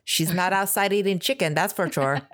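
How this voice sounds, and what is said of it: Put-on dialect for a movie line. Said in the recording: “that's so good. That was good. Did you get a dialect coach?”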